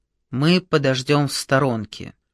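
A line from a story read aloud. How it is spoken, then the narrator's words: Weary quiet creak. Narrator (Russian): Чахов, покачиваясь, словно от изнеможения, тихо проскрипел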